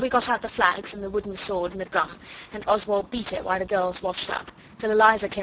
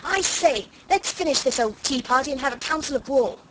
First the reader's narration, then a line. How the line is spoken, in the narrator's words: Noel interrupted and cried out